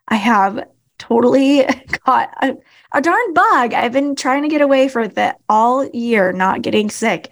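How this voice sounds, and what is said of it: Hoarse, froggy voice from illness. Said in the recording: “I sound a little hoarse today ... I sound kind of froggy today”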